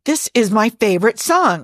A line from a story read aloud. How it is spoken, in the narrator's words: Erica says fiercely